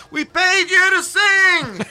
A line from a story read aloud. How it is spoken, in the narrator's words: somebody yelling